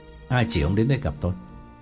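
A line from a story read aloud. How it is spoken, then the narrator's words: Cold question. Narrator (Vietnamese): Trực lạnh lùng hỏi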